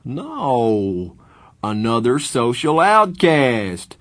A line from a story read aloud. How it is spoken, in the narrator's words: Two-Bit yelped, from laughing so hard